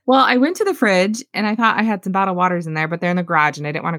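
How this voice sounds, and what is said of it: Scratchy, congested voice. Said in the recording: “It's a little scratchy ... A little congested”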